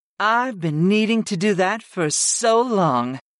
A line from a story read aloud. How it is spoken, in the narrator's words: purred